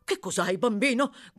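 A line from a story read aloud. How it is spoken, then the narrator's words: Agitated doctor shouting. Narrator (Italian): gridò il medico, agitatissimo, come sempre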